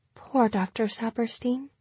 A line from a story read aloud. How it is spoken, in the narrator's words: Calliope whispered, and almost sounded as if she meant it